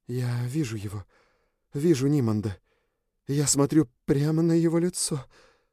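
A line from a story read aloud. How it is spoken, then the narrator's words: Breathless trembling voice. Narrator (Russian): выдохнула Лючи дрожащим голосом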